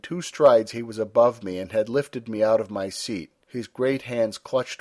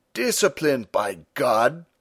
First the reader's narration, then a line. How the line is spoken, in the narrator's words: Stumm cried